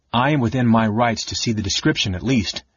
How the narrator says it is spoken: LaDonna returned coldly

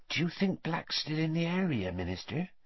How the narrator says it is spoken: whispered Madame Rosmerta

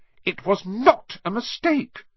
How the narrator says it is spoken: said Harry angrily

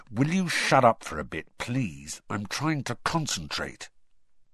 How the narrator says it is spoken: Harry said through gritted teeth

